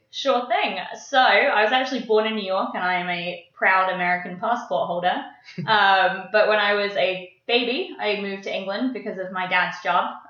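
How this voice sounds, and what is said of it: Mixed English and New York accent. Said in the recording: “my accent is a half English, half New York accent. And I guess with a little bit of Irish in there”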